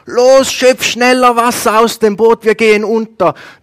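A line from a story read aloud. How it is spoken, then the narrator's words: Shouted. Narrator (German): Ein Jünger schreit zum nächsten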